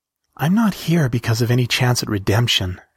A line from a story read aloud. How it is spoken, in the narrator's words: said